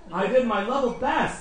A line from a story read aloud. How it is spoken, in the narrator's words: he exclaimed